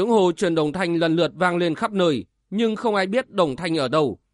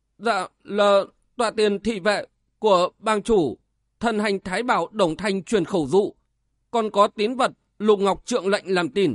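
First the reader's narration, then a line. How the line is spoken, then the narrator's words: Trembling voice. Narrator (Vietnamese): Bạch Lượng run rẩy nói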